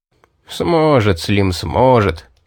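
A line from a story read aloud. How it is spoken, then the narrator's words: Wizard laughing. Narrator (Russian): засмеялся маг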